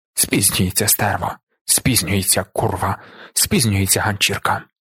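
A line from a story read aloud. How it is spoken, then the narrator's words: Repeated muttering. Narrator (Ukrainian): Раз у раз бурмотів Зорбас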